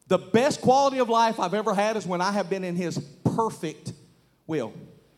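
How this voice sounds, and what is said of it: Southern American accent, deliberate pacing. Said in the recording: “you Yankees can't differentiate between my wheels with my southern accent. So I had to say that deliberately.”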